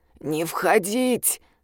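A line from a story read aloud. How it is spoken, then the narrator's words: Hoarse voice. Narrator (Russian): прозвучал хриплый голос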